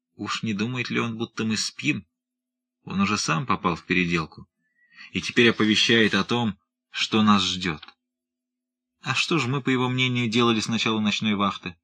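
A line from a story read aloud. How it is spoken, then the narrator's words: Proud contemptuous whisper. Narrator (Russian): Губы его скривила гордая усмешка уверенного в себе моряка, и он презрительно прошептал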